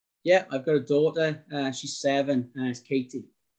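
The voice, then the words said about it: South Wales valleys accent. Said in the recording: “your accent seems a bit different than most Welsh ... It's South Wales, but it's more of a valley's accent ... it's not quite sort of a Cardiff accent, and it's not sort of really Welsh, it's sort of a bit in between”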